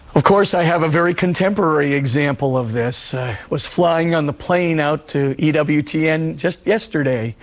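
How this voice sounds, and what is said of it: Husky, hoarse voice. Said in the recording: “I was losing my voice. ... I do have a husky voice right now, but it at least is a voice”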